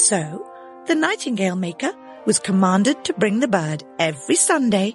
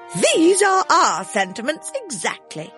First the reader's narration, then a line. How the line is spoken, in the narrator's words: The court exclaimed